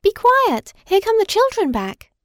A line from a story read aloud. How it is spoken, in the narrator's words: all at once, the sawdust toy exclaimed